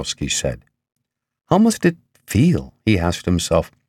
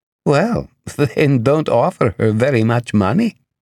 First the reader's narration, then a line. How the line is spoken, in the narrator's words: Galena laughed